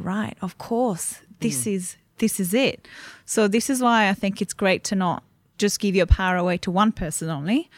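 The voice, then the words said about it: Slight Italian accent. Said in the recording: “there's a little bit of an accent there. So you're probably not here from Australia originally. ... I'm Italian, born and bred.”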